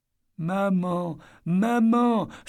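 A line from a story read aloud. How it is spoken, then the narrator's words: Child sobbing in gasps. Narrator (French): sanglotait-elle par saccades, le corps comme figé par cette paralysie symptomatique des corps enfantins lorsqu'ils sont secoués de larmes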